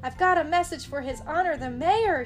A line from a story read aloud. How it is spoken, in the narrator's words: he shouted